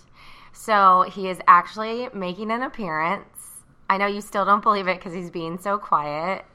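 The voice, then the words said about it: Bright, happy podcast host voice. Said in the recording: “radio voice... It's my podcast voice... you're so bright and happy”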